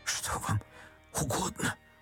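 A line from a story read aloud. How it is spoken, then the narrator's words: Whisper, priest. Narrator (Russian): прошептал отец Федор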